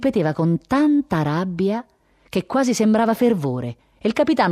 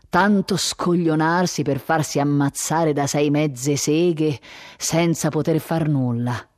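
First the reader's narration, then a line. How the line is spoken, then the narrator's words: Murmured. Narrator (Italian): mormorava il colonnello Aureliano Wendia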